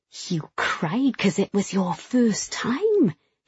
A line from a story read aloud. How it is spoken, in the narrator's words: he said, his voice low, wheedling